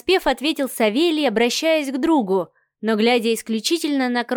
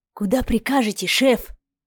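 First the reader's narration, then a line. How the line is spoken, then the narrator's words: Cautious loud whisper. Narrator (Russian): Осторожно, громким шепотом поинтересовался Вадим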